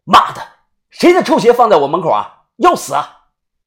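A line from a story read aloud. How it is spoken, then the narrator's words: Shouting. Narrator (Chinese): 喊完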